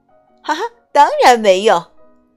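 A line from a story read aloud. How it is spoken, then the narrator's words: Exclaiming. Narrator (Chinese): 她叫道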